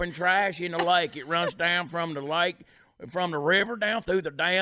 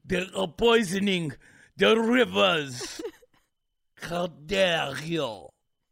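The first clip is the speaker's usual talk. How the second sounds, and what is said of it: Put-on Swedish accent. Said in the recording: “give her a Swedish accent.”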